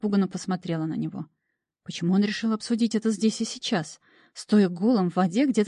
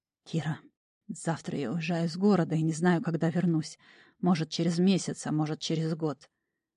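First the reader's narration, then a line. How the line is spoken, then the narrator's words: Hoarse. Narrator (Russian): он прохрипел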